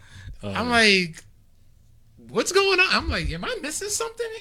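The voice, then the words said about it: Imitates another person's voice. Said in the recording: “my worst Tony Khan impression.”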